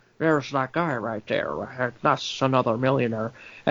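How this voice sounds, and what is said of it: Imitates a weird accent. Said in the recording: “he's talking in that weird accent ... he's talking that weird”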